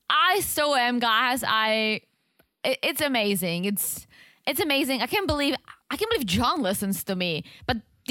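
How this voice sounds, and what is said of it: Speaker's own accent. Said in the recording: “with my accent”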